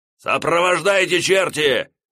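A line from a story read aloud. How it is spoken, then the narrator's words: Sergeant's barked order. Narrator (Russian): рявкнул фельдфебель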